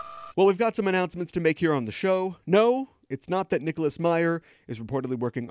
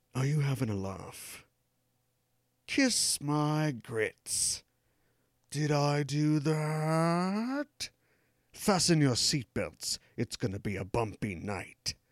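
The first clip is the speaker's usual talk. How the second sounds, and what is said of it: Teeth-clenched British accent. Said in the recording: “delivered in his teeth-clenchingly British accent”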